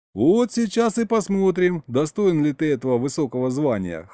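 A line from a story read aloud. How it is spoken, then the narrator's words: Laughing chuckle. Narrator (Russian): хохотнул я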